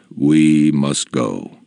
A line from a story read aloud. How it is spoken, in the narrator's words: the man said calmly